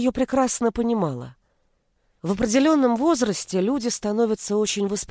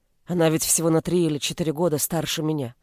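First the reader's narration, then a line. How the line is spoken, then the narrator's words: Woman muttering. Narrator (Russian): пробормотала женщина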